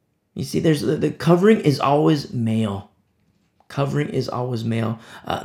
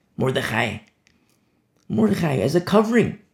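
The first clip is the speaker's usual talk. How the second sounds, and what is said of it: Hebrew-accented pronunciation. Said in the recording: “I'm using my Hebrew accent.”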